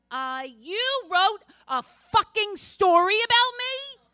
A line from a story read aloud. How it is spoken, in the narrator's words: she nearly shouted